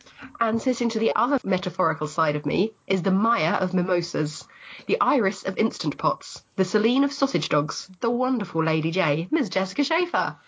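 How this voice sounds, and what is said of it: Croaky, hoarse voice. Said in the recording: “I'm slightly losing my voice ... the croaky inflection that I'm bringing to the podcast ... I love that croak.”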